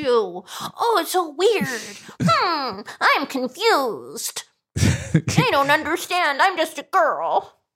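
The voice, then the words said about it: Sarcastic high-pitched anime-style girl voice. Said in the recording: “doing that voice? ... it sounded kind of like an anime voice ... the sarcasm dripping from ... voice”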